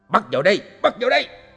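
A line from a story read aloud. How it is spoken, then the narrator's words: Shouting. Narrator (Vietnamese): nghe tiếng quát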